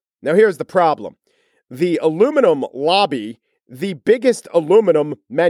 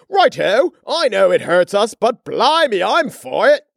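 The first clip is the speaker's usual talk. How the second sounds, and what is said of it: Put-on English accent. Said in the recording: “an English accent”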